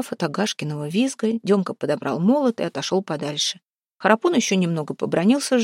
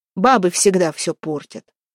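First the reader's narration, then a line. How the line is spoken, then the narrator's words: Vexed amused snort. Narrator (Russian): хмыкнул Демка, которому от досады стало даже смешно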